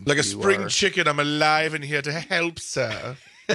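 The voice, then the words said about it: Attempted put-on accent. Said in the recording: “whatever that attempt at an accent was”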